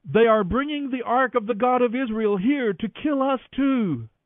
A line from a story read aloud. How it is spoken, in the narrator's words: when the people of Ekron saw it coming, they cried out